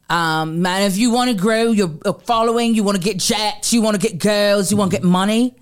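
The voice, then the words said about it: Imitation of a man's accent. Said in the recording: “That was pretty good. ... That was a good impression of his accent.”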